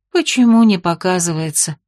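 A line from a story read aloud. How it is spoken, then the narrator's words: Resigned sigh. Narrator (Russian): Сдаваясь, вздохнула Сирена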